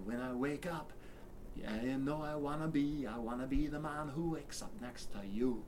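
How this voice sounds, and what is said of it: Attempted Irish or Scottish singing accent. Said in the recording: “this stupid attempt at a Irish or Scottish accent”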